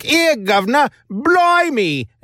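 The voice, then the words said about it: Exaggerated put-on Cockney accent. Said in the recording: “they're just laying on what the American writer has to assume is a Cockney accent”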